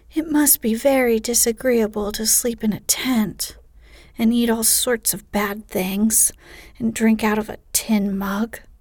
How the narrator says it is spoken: sighed Amy

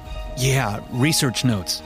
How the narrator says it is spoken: Eric stuttered

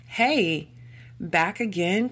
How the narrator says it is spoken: called out Doug

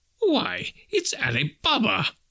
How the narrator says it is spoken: Scrooge exclaimed with ecstasy

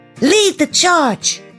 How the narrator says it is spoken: Cedric cried

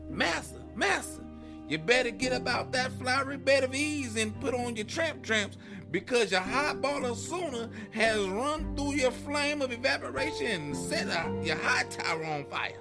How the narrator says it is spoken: yelling as loud as he could

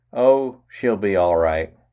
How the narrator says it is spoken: Stephanie then turned to her younger sister Shirley, exclaiming

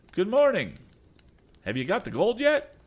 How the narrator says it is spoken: making a mocking bow, he called out

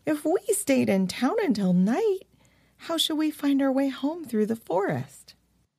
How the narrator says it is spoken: exclaimed Annalise in astonishment

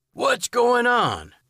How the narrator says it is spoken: man yelled

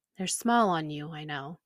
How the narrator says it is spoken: Mama said quietly

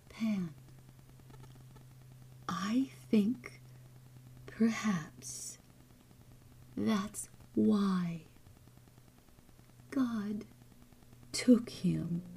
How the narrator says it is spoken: Mother was saying to me in the gentlest, tenderest whisper I ever heard from human lips

